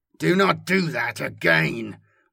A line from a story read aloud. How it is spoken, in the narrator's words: growled